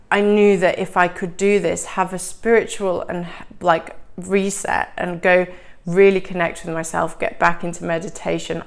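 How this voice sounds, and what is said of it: Nasal, congested voice. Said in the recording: “I also actually came back with a cold, which you might still be able to hear in my nasally voice”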